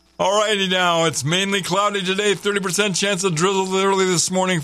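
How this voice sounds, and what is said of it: Announcer-style radio voice. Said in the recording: “do it in my radio voice”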